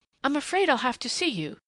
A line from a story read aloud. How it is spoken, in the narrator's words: she said desperately